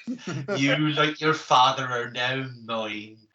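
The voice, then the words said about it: Put-on West Country accent. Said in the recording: “how funny it is when you quote Star Wars lines in a West Country accent”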